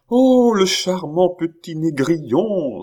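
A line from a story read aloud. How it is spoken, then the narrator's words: Delighted exclamation. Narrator (French): s'écria la comtesse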